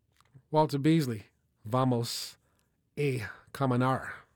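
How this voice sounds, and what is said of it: Spanish spoken with Southern American accent. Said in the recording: “forgive my southern Spanish accent.”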